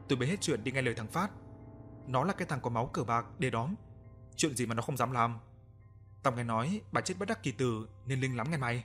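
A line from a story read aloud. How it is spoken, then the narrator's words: Lowered voice. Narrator (Vietnamese): bà nhỏ giọng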